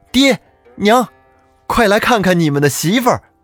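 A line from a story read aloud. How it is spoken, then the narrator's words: Calling out. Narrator (Chinese): 儿子叫道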